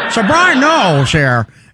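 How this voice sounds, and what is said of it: Bad Colin Cowherd impression, Limbaugh-like. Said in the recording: “He has the worst Colin Cowherd impression anybody has ever done ... That's his Cowherd ... It sounds like Rush Limbaugh or something like that. It doesn't sound like Cowherd at all.”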